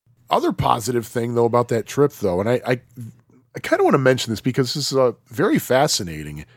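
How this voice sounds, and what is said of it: Usual voice. Nothing is said of it.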